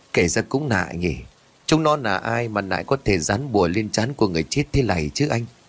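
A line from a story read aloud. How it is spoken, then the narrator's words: Puzzled question. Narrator (Vietnamese): nghi hoặc rồi hỏi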